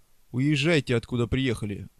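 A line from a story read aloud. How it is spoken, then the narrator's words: Rude. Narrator (Russian): грубо сказал Себастьян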